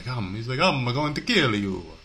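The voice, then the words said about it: Bad put-on Italian accent. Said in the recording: “That was a horrible Italian accent.”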